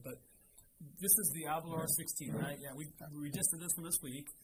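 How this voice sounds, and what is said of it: Voice affected by a cold. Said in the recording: “apologize for my voice. I'm getting over a cold, so it's not that great.”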